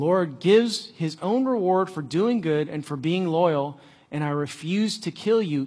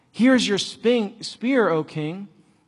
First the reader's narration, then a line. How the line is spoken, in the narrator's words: David replied